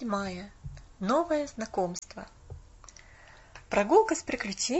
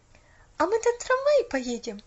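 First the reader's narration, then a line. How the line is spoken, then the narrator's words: Joyful question. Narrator (Russian): радостно спросила Поллианна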